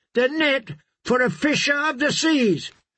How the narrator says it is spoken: Rush shouted back

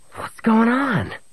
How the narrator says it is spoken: Murg snarled into Han's face

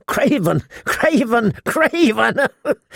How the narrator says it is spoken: He giggled hysterically

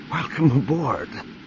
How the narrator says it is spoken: Mara gasped

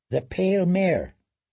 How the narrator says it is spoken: Daenerys sighed

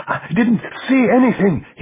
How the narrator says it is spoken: he gasped

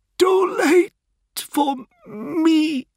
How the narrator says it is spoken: She wheezed and died

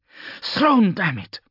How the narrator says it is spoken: Hanlon panted

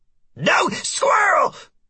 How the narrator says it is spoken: practically shouts in me head

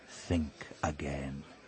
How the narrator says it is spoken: he said softly

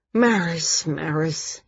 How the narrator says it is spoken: he muttered

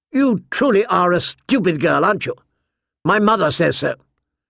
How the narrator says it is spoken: said sharply

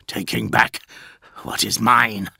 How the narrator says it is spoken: snarled Perturabo

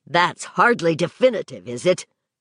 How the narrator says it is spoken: Vic asked sharply

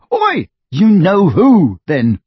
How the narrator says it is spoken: Harry shouted, goaded past endurance

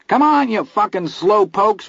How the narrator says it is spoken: Vern shouted, still laughing

